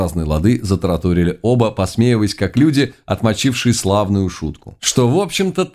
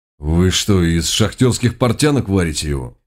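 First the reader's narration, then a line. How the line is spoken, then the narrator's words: Restrained, barely hidden anger. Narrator (Russian): ответил Рок, стараясь, чтобы голос не звучал откровенно злобно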